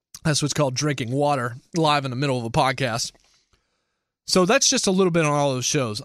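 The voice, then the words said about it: Strained, failing voice. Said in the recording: “I'm losing my voice again ... my voice has kind of been sketchy over the last couple of days”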